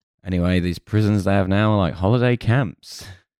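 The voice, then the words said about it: Radio presenter voice. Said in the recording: “This is an interesting radio voice you're doing now... You sound like you're about to start announcing the chart.”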